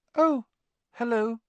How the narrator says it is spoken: he said, his voice much higher than usual

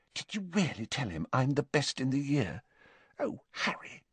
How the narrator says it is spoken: with a radiant expression and whispered

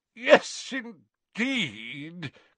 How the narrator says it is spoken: cried Slughorn a little thickly

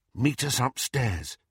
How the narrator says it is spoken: Harry whispered to Hermione

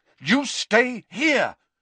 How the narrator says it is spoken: Harry repeated angrily

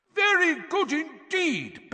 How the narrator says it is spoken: Bagman was shouting

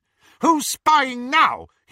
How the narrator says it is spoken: he shouted

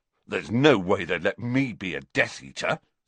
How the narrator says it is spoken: said Ron indignantly

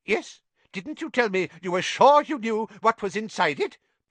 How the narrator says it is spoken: piped up Professor Flitwick

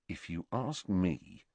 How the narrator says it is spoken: said Harry quietly

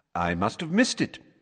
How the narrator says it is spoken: said Dumbledore cheerfully

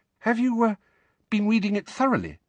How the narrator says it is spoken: Hermione asked, still more anxiously

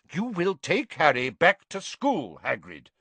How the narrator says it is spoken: Dumbledore repeated firmly

